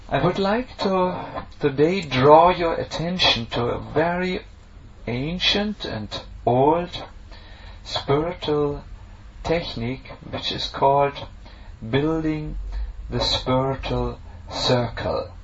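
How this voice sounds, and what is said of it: German-accented English. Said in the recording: “try to get the German accent out of the English and sound, to try to sound a little bit more British ... I can't guarantee for my accent”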